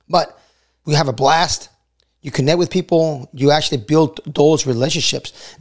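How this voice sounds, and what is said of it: Hoarse, nearly lost voice. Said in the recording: “my voice is still, you know, still gone, right? It's barely coming back.”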